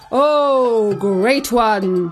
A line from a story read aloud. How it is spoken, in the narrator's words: called out